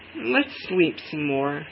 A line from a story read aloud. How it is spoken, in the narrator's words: said Madge wearily